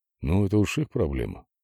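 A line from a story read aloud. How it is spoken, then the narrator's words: Muttering. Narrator (Russian): пробормотал Владимир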